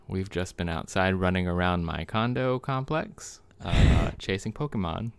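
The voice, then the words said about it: Out of breath, panting speech. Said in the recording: “Pardon us if we're a little out of breath.”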